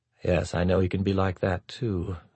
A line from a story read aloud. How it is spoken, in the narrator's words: Avram murmured, almost too softly to be heard